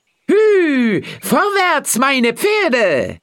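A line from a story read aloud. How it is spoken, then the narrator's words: Proud call. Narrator (German): Kleinklaus wollte ihm zeigen, dass er es zu etwas gebracht hatte und rief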